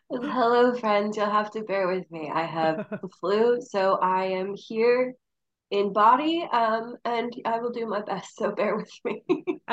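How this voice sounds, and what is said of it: Sultry, sick-sounding voice. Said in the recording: “feeling a little under the weather ... in your special sultry voice”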